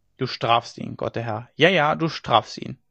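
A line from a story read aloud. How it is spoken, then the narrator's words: Murmuring. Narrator (German): murmelte sie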